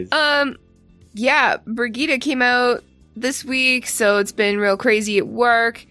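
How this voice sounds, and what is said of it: Speaks with a regional accent. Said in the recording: “Don't make fun of my accent. It's adorable.”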